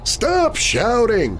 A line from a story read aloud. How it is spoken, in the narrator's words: the janitor cried, annoyed